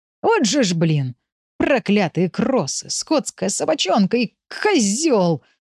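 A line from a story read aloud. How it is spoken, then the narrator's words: Groaning. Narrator (Russian): стонал он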